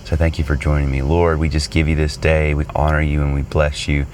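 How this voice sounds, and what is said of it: Voice sounds a little sick. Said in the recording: “I'm also a little bit under the weather, so if you hear that in my voice, that is the reason.”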